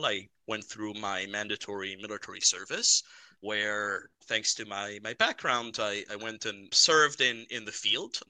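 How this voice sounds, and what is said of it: Slight Israeli accent. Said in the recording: “I have a bit of an accent... I'm a dual US Israeli citizen”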